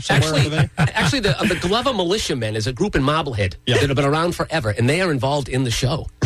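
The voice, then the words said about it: Boston accent, dropped R's. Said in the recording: “my terrible Boston accent ... get rid of the R's ... You have the Boston accent”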